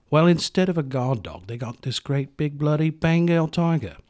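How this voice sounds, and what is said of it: Put-on accent sounding Australian. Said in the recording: “I don't know why I sound Australian all of a sudden.”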